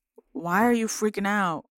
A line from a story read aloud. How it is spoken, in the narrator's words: Bromelia sighs